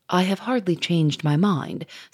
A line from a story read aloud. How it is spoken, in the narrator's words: said Grouchard, in his husky, gentle voice